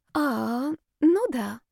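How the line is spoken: Confused. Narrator (Russian): растерянно сказала Настя

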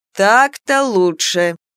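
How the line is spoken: Satisfied drawl. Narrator (Russian): довольно протянул голос

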